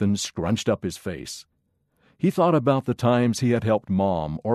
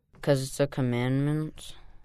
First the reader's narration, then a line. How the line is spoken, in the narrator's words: said in a bored voice